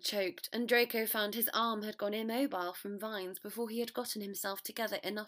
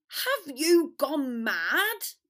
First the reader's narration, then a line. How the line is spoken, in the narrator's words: Ron bellowed